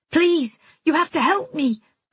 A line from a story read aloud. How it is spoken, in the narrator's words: I yelled over the music